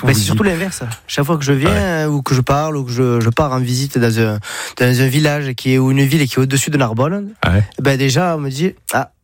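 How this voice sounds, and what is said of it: Sing-song southern French accent. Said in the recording (French): “vous venez pas du nord de la France ... on a l'accent. J'ai le package ... c'est chantant ça ... toi, t'es du sud”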